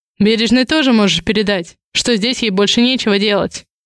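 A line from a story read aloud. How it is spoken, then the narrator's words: Cold curt remark. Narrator (Russian): холодно бросает Рязанцев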